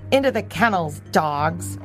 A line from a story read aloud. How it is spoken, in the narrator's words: ordered Lupo sharply